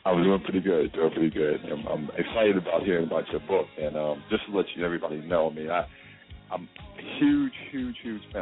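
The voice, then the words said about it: Deep voice. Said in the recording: “That deep voice.”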